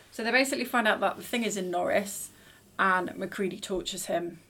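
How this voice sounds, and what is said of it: Accent that blurs some words. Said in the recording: “my accent making it sound like tortures”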